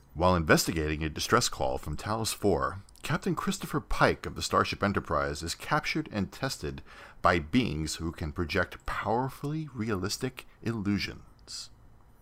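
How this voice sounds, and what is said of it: Fake radio announcer voice. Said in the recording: “your fake radio voice, radio announcer voice”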